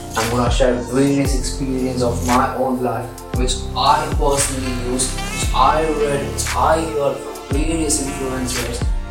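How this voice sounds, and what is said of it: Indian English accent. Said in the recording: “I'm gonna be in this national Indian accent ... Indian accent speakers”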